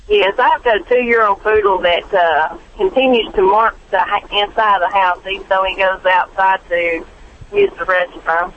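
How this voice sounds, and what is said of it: Southern drawl. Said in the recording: “I love that southern drawl.”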